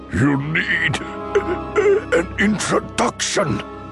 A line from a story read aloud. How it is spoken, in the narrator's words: Dooku choked out